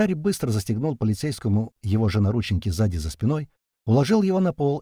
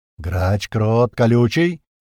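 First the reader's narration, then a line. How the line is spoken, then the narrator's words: Loud. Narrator (Russian): громко произнес Туман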